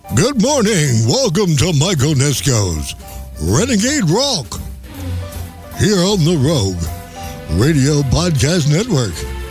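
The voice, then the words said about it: Radio DJ announcer voice. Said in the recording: “Yeah, pretty cool, my DJ voice, huh?”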